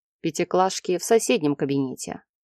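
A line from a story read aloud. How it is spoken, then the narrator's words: Wry snort. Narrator (Russian): хмыкнул он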